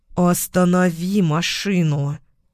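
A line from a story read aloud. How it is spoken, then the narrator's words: Growling. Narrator (Russian): Прорычала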